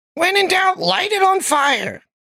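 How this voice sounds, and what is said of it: Goblin character voice accent. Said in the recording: “He's a goblin bard. ... You got the accent down really well”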